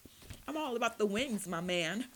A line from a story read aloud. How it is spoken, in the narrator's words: John replied, laughing